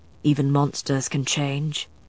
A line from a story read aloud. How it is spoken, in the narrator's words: Matthew said softly